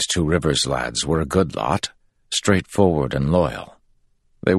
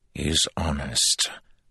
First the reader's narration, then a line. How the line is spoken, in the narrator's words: Andral replied quietly